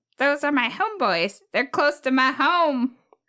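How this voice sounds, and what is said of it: Cartoon robot character voice impression. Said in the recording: “That's BMO. ... It kind of sounded like Cleveland from Family Guy. In a fun way.”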